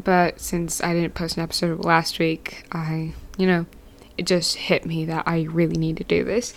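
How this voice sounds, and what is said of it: Unusually deep, allergy-affected voice. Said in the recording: “I'm really sorry for the really deep voice today. I've been having allergies all morning”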